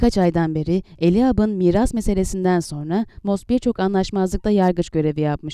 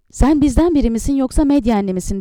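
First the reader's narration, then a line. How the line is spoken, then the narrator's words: Shouted. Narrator (Turkish): diye haykırdı Miriam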